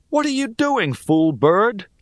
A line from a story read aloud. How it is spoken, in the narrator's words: I yelped